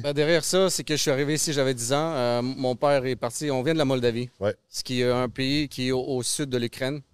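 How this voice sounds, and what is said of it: Slight Russian-sounding accent. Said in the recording (French): “ton petit accent à la russe”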